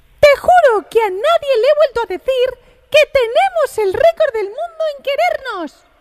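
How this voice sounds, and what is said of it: Mickey Mouse cartoon character voice. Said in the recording (Spanish): “letra de la canción leída por ... poniendo la voz de Mickey Mouse ... Está muy bien ... Porque te sale muy bien.”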